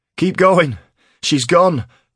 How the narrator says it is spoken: cried Keel over the rumble of thunder that followed

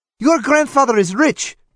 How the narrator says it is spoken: she retorted fiercely

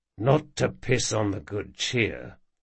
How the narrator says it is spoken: said Jean in a much lower voice

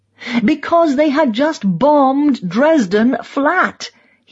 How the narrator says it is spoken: he cried

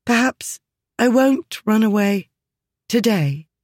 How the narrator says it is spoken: Hesitantly, she said

